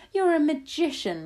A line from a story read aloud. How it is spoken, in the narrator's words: my grandmother shouted